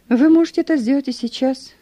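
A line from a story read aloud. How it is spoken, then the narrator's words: Calm. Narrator (Russian): сказал я спокойно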